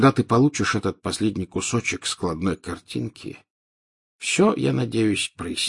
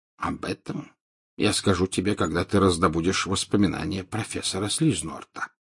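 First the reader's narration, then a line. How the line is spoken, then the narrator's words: Plain. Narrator (Russian): ответил Дамблдор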